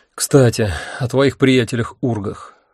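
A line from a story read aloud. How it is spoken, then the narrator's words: Sigh. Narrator (Russian): вздохнул я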